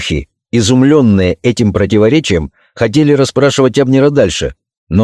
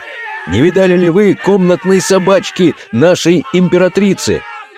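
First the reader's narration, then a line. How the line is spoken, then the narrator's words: Crowd shouting from afar. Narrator (Russian): толпа черных рабов, которые уже издали кричали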